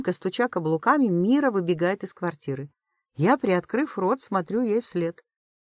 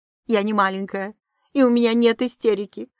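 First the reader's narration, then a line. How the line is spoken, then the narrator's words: Angry, tearful. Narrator (Russian): произносит зло Мира, ее глаза наполняются слезами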